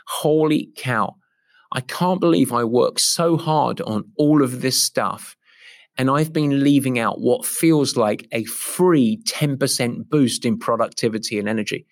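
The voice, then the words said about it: Put-on American accent. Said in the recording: “I do that in my best American accent.”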